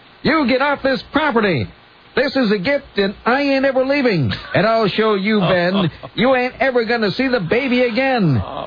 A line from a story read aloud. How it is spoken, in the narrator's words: Smith began screaming